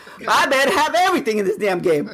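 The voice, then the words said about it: Raised, loud voice. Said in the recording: “raising my voice”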